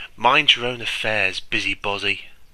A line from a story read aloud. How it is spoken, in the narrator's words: said the prince scornfully